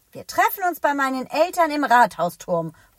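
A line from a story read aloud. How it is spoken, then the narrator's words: Calling out. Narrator (German): ruft Elliot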